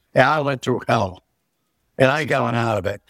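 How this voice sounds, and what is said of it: Emotional, angry, tearful voice. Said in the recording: “I sound angry, hurt. I'm tears in my eyes. I'm drinking right now”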